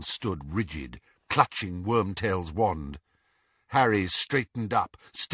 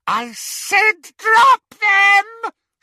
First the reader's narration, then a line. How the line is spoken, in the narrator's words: she screeched